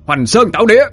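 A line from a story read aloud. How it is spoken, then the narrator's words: Shout. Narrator (Vietnamese): Dũng quát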